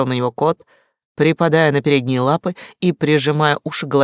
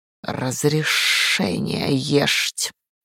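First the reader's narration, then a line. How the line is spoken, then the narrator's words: Cat hissing words. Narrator (Russian): в кошачьем шипении вполне различимые слова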